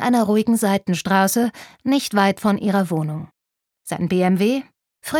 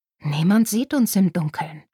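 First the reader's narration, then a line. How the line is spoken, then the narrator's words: Breathy whisper back. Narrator (German): hauchte zurück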